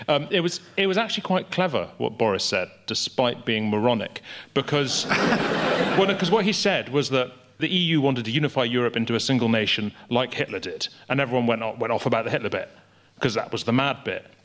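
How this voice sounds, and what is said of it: Strong Scottish accent. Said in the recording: “an unbelievably Scottish man ... the depth of my accent”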